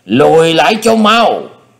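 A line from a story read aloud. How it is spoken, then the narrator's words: Loud shout. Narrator (Vietnamese): Ngọc Hạp Thánh Quân đã thét lớn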